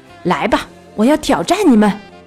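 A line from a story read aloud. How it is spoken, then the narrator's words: Roaring. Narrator (Chinese): 奥托·加蒙德，闪电大吼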